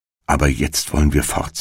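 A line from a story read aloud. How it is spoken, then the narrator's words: Plain. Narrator (German): sagte Hänsel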